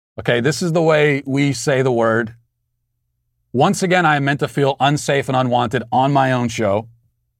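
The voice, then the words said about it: Baltimore accent. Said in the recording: “my Baltimore accent”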